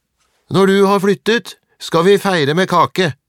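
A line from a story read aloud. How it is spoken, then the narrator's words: Shouted. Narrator (Norwegian): ropte Atle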